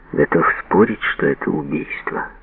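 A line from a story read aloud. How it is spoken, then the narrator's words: Quiet. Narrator (Russian): тихо сказал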